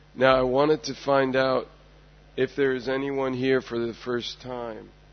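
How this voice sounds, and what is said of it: Hoarse, fading voice. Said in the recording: “I am slowly losing my voice,”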